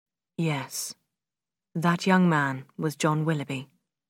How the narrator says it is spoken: Brandon said quietly

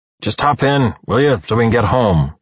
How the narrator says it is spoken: he groans

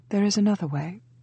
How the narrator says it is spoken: said evenly

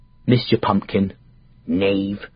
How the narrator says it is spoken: she said, under her breath

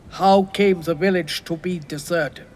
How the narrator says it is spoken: asked the general

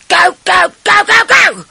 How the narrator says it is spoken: in my earpiece, I heard Richard shouting

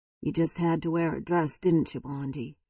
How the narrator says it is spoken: He muttered

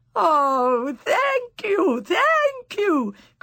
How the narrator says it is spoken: cried the old witches

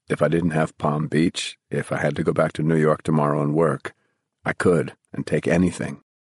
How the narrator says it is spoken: he said quietly

